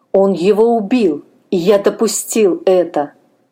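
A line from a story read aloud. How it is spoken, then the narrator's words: Moaned. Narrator (Russian): простонал Блажку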